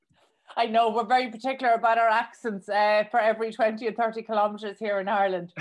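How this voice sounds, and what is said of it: Irish Cork accent. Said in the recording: “my Irish accent with the Cork accent”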